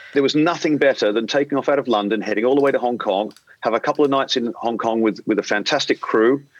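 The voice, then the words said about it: Australian accent. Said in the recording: “being an Australian, if you haven't picked up my accent yet”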